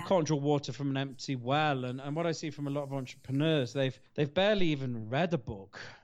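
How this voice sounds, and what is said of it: British accent. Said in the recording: “I know I have an accent. I'm from the UK”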